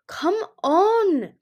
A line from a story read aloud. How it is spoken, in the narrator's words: Indigo cried